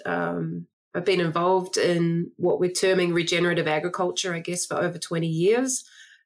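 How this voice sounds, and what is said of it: New Zealand accent. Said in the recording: “I don't speak with an American accent. I'm originally from New Zealand.”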